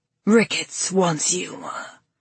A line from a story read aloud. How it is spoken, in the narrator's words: he hissed